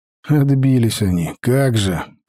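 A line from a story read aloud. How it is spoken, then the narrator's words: Grumbled. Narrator (Russian): проворчал я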